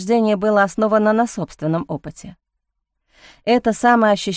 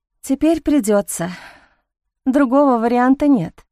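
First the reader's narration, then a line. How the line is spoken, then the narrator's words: Heavy sigh, holding back tears. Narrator (Russian): тяжело вздохнула Алиса, задушив себе приступ очевидно подкатывающих слез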